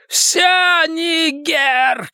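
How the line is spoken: Shouting. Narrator (Russian): кричал Генри

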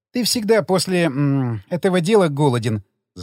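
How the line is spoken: Laughing. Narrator (Russian): засмеялась она

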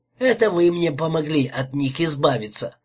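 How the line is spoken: Short laugh. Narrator (Russian): хохотнул он

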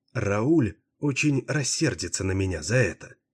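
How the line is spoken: Quiet. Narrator (Russian): тихо произнесла

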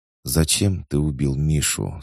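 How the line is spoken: Calm question. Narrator (Russian): спокойно спросила она

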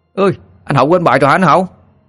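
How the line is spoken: Children shouting. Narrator (Vietnamese): Bọn trẻ con bên ngoài sân thì họ hét lên

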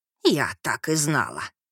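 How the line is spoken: Sleepy grumbling voice. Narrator (Russian): послышался за спиной бурчащий сонный голос

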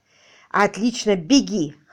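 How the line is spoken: Exclaimed. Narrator (Russian): воскликнул он

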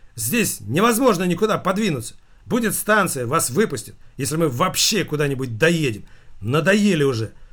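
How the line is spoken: Nervous shouting. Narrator (Russian): Она кричала очень нервно

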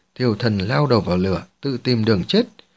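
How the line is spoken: Cold, mocking. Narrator (Vietnamese): La Huyền Cơ nhếch mép cười trào phúng, thanh âm lạnh lùng vang lên

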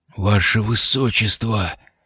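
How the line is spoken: Hoarse, strained. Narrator (Russian): хрипло выдавил граф

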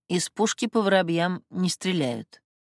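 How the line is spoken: Dismissive, through gritted teeth. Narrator (Russian): действительно не поверила ее параноидальным измышлениям, но и возмущаться не стала, лишь процедила

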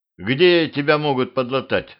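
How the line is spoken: Plain. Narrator (Russian): спросил я Дусю

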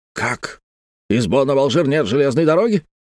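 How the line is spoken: Shouting. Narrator (Russian): закричал дядюшка Антифер

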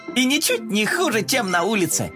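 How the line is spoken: Laughing. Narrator (Russian): рассмеялся

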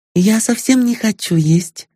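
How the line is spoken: Trembling voice. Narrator (Russian): сказала она дрогнувшим голосом

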